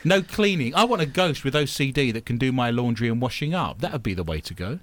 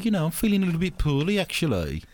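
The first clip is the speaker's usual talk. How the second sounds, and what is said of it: Put-on Dudley Black Country accent. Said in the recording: “Where's the accent? This is Dudley. It's near Birmingham, really, but it's Dudley.”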